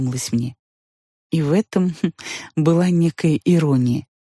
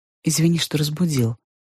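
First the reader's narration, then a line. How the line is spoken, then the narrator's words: Soft, gentle. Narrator (Russian): сказал он мягко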